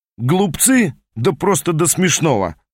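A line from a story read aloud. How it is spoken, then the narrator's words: Laughing. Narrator (Russian): рассмеялся Гриффин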